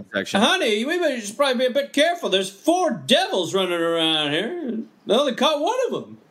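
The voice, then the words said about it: Imitates another person's voice. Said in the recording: “your Norm MacDonald impression?”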